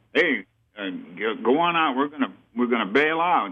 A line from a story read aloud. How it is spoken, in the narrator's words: the crew chief yelled at me